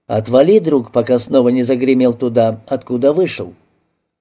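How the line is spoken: Calmly. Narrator (Russian): спокойно говорю

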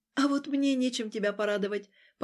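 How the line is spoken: Heavy dejected sigh. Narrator (Russian): поникла и тяжело вздохнула

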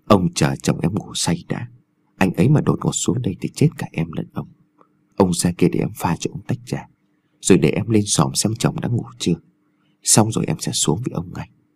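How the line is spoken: Soft coaxing whisper. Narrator (Vietnamese): cô dùng giọng nhẹ nhàng thỏ thẻ

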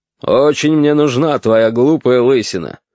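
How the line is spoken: Grumbling. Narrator (Russian): ворчал Аркадий Ильич

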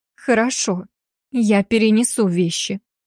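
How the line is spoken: Forced reluctant words, heavy sigh. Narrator (Russian): наконец выдавила она из себя, еще раз тяжело вздохнула

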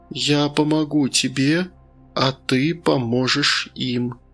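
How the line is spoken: Soft rustling voice. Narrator (Russian): мягко прошуршал голос

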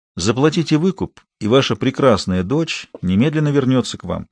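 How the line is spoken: Quietly. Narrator (Russian): негромко закончил Адам

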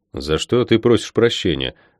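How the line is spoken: Asked dryly. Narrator (Russian): сухо поинтересовался я

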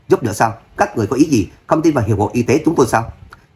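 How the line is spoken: Growing angrier. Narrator (Vietnamese): Roger càng thêm tức giận

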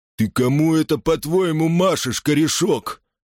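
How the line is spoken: Groaning. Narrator (Russian): Сатри застонал

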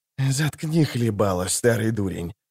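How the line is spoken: Hissing. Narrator (Russian): зашипел он

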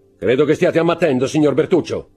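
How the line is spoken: Cold. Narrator (Italian): disse freddamente il conte

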